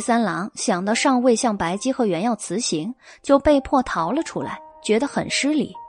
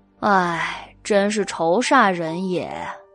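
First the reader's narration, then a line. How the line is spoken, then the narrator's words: Sighing. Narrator (Chinese): 他叹了口气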